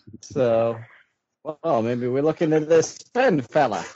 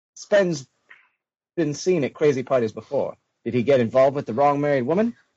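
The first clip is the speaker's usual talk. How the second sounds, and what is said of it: Decent put-on mid-Atlantic accent. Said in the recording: “That was a decent mid-Atlantic accent there”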